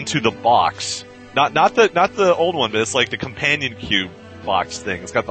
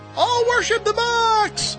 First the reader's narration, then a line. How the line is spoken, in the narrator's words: she just cried out